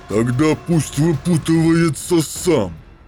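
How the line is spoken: Growl over alarms. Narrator (Russian): прорычал Дорн над перезвоном тревожных сигналов

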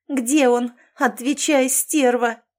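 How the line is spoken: Frantic scream. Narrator (Russian): завопила я не своим голосом

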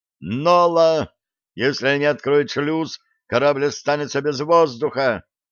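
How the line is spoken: Panicked yell. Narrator (Russian): завопил Блад

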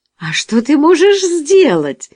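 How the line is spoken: Amused exclamation. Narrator (Russian): воскликнула женщина, развеселившись

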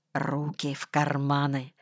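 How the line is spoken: Whisper. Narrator (Russian): шепнул я

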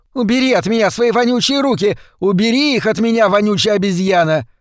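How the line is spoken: Shout. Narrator (Russian): Внутри станции кто-то закричал

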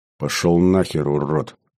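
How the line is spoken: Hissed. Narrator (Russian): прошипел я

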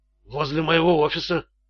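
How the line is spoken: Timid babbling. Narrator (Russian): пролепетал Стоун

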